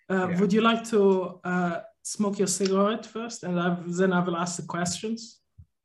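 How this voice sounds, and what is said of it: Put-on German accent. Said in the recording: “you're going to do a German voice as well? ... I do the accent”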